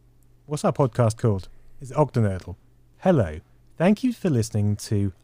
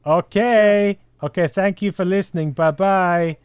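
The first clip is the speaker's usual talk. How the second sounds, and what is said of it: Odd put-on accent. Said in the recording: “Accent? Hello! What even is that accent?”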